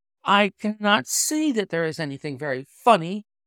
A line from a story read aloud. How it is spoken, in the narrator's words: cried our client, flushing up to the roots of his flaming head